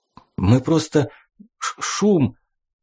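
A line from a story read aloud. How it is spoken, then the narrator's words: Unsure, trembling voice. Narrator (Russian): Неуверенно произнес сосед дрожащим голосом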